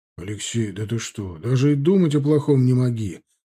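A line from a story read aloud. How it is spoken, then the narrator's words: Exclamation. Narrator (Russian): воскликнул Милорадович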